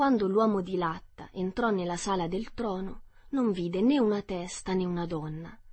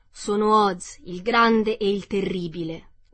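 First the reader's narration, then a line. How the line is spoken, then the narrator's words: Beast's roaring voice. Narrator (Italian): parlò la bestia, con una voce che era un unico grande ruggito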